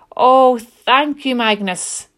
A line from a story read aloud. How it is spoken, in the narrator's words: exclaimed